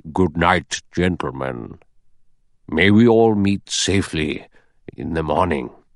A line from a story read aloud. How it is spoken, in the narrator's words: The judge said gravely